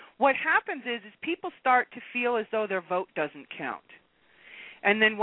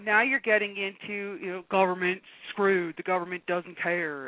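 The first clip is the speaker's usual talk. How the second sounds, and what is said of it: Put-on Southern US accent. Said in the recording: “I'm using a Southern accent”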